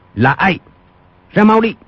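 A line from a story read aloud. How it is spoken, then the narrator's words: Sharp bark. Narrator (Vietnamese): Quách Tĩnh quát lên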